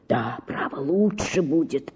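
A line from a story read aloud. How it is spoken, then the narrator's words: Whisper. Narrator (Russian): шептал он мне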